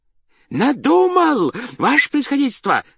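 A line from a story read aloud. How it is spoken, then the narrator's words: Joyful strained shout. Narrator (Russian): закричал он радостно, не своим голосом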